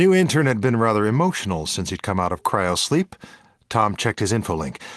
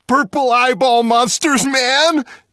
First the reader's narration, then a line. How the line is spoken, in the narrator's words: Jimmy the intern shrieked